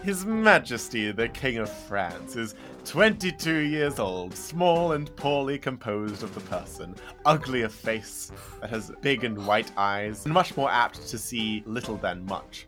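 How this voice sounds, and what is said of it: Put-on posh accent. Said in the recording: “I'll just do a posh accent, because he's posh.”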